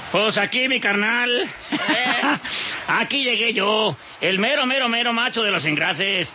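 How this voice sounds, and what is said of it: Put-on Mexican Spanish accent. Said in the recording (Spanish): “con el acento de mexicano”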